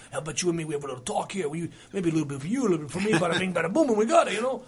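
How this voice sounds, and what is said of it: Put-on New Jersey tough-guy accent. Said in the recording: “He's from Jersey. So he's got a Jersey accent. And he does, of course, the guys, you know, the Jersey guys really well.”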